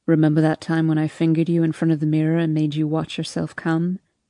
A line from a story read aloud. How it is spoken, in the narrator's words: he asks